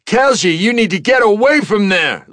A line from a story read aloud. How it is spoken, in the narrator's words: Lee shouted